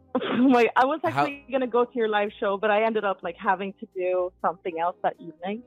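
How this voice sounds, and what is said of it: Swedish-accented English. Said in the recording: “You sound like you have an accent. ... I'm from Sweden.”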